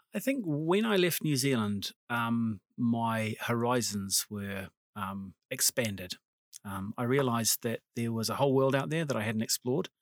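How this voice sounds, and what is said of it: New Zealand accent. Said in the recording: “that lovely accent originates from New Zealand”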